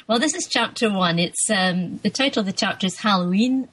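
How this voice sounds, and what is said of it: Scottish accent. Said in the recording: “your Scottish accent... You'll get the full benefit of my Scottish R's.”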